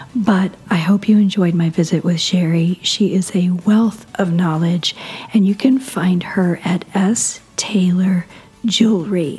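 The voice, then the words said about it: Hoarse, strained voice. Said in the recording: “I'm recovering from laryngitis ... I'm hoping next time you hear me, I'll sound much better”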